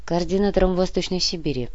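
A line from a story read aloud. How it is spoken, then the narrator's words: Old man's dry reply. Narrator (Russian): сухо ответил старик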